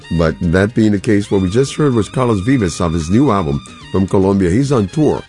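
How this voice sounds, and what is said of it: Tired, strained voice from a cold. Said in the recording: “I've been suffering a little bit of a cold combination allergy ... my voice is not really where I want it to be. I have a lot of voice fatigue”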